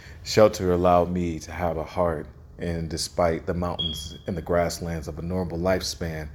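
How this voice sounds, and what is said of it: Usual voice. Nothing is said of it.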